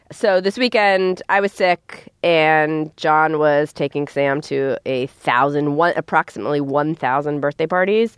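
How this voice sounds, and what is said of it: Sick-sounding voice. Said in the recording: “everyone in my house is sick ... including me. You can tell by my voice.”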